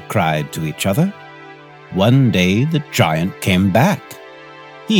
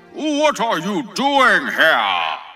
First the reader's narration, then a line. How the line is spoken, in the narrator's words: he cried in a very gruff voice